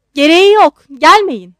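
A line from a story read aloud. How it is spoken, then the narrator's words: Shouting. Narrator (Turkish): diye bağırdı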